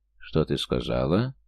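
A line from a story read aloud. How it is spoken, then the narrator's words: Menacing whisper. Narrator (Russian): угрожающе прошептал он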